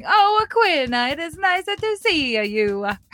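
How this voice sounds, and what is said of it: Put-on Italian accent. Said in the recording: “It is really how they talk. They sort of add a at the end of everything.”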